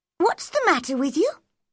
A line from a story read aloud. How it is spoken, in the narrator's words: she asked crossly